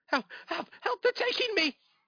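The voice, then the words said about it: Panicked screaming for help. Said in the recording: “you hear screaming... She's screaming for help.”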